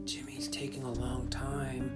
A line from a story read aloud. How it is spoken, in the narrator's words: whispered Robin